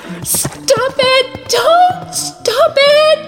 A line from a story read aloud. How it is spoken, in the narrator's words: Sansa screamed